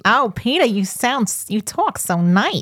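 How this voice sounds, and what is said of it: Lois character impersonation. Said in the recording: “my Lois impersonation”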